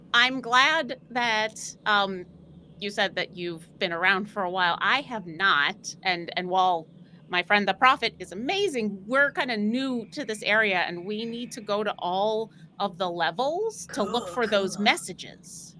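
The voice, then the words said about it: Put-on character accent. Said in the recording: “the accent got a little off”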